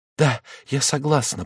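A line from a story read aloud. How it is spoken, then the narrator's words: Whispered. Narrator (Russian): прошептала она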